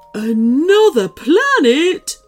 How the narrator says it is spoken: Woodrow gasped

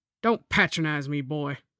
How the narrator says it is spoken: Dick snapped

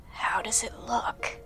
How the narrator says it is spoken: she rasped

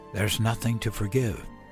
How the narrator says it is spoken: whispered

